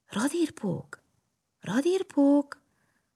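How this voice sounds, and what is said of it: Whispering. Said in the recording (Hungarian): “belesuttogott a lyukba”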